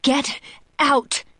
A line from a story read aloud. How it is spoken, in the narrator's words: I scream